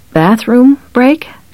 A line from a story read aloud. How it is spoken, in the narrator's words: she asked